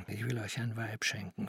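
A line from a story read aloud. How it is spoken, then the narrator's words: Whispering. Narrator (German): flüsterte er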